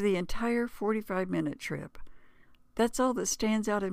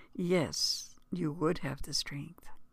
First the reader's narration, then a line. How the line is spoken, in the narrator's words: she said in a soft, firm voice